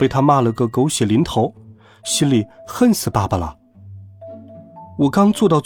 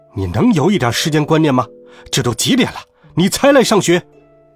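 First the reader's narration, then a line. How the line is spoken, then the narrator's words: Roaring. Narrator (Chinese): 吼道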